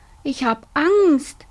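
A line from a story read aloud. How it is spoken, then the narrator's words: Whining, scared. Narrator (German): jammerte Robert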